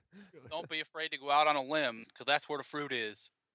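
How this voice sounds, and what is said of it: Imitates another person's voice. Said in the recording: “was that your Doyle impression? ... No, but, well, maybe. I could do a better one.”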